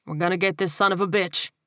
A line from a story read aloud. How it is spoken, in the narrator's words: he said firmly